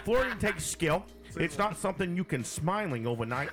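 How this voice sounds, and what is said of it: Put-on northern accent, Peter Griffin-like. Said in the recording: “Do a northerner ... You do that well ... All right, Peter Griffin.”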